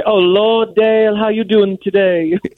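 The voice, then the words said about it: Impression of Blanche. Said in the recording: “do an impression ... Blanche would say”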